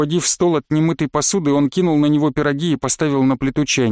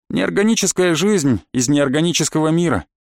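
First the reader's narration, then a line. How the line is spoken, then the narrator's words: Casual everyday tone. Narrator (Russian): будничным тоном ответил Колян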